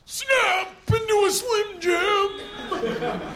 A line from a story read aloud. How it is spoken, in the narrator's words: technically he yelled